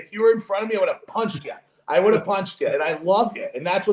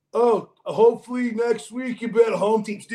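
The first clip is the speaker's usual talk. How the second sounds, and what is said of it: Imitates another person's voice. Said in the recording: “your impression of me”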